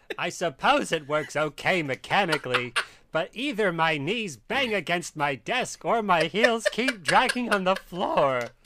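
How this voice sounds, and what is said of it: John Mulaney impression. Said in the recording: “do an impression ... John Mulaney. I mean, do your stage persona. John Mulaney.”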